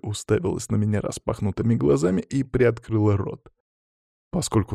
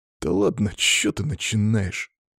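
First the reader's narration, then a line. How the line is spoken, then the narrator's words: Offended grumble. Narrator (Russian): обиженно буркнул Сева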